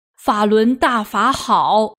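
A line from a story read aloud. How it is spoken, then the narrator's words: Moved, shouting. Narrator (Chinese): 受丈夫感动的王老九也高喊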